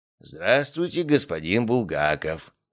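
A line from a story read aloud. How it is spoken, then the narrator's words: Wheezing old man. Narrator (Russian): просипел старик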